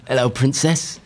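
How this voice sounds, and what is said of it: Put-on Essex accent, pirate-like. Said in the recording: “It's not your best Essex accent here on the radio ... You sound like a pirate.”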